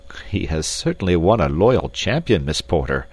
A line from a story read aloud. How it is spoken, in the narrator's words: said Captain Dufresne, laughing